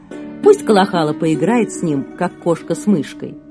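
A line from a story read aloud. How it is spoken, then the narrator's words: Laughing while speaking. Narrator (Russian): просто смеялся, говоря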